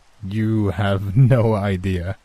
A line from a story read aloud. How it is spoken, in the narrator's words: I laughed